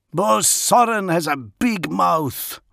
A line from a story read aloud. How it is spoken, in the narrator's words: growled Fafner